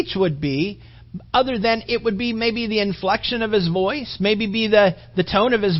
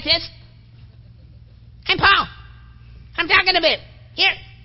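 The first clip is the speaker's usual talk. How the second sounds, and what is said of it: High squeaky voice. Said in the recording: “You got a little high squeaky voice. Got a high squeaky voice.”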